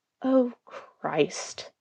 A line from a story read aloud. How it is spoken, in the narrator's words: the sheriff mutters